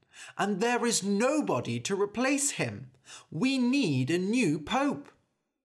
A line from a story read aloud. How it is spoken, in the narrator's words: cried a man